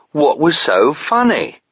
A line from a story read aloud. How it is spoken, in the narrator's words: Jorbert indignantly asked